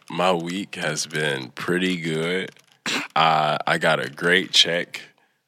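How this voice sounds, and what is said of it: Congested, stuffy voice. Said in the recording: “I have a cold.”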